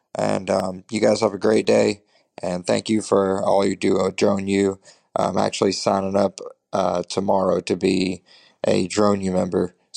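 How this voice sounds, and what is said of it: Natural regional accent. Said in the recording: “accent that is just their actual accent.”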